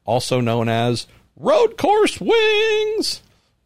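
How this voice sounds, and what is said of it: Sung in a strained voice. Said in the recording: “Why did I sing that in a really strained voice?”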